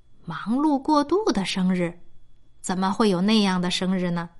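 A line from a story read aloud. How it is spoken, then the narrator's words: Sighing mother. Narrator (Chinese): 熊妈妈叹了一口气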